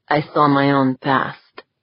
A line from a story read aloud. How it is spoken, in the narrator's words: said, his voice a low rumble